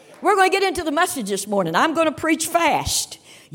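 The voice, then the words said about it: Kentucky Southern accent. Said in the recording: “you can tell by the accent, I'm from the state of Kentucky.”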